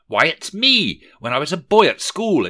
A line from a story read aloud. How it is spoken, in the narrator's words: exclaimed Rishi Scrooge